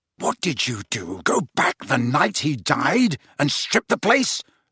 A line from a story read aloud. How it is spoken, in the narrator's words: snarled Harry